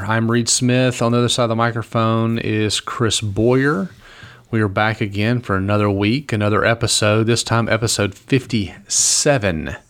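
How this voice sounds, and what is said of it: Smooth radio announcer voice. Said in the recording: “nice, smooth radio voice”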